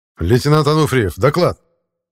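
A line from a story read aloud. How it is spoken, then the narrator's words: Barked command. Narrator (Russian): рявкнул я, решив взбодрить Михаила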